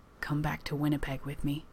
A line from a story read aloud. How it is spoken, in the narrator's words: Johnny whispers